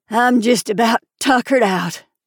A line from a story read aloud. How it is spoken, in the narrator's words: groaned